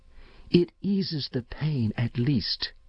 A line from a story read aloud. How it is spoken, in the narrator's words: she went on dreamily, her voice thinning into a sob